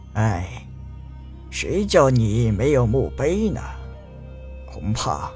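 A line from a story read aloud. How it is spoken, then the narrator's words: Old man's long sigh. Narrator (Chinese): 老人颤颤巍巍地走了过去，长叹道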